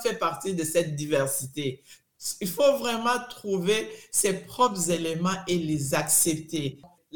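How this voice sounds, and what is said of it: French with an African accent. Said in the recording (French): “j'ai l'accent venant de l'Afrique”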